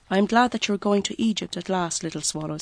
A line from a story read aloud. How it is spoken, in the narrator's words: said